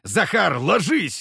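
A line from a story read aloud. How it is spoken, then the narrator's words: Barked command. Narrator (Russian): рявкнул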